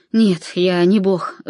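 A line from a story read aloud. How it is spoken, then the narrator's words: Sigh. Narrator (Russian): вздохнул он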